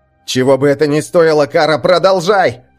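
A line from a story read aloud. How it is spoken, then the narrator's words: Shouted. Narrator (Russian): прокричал Рагнар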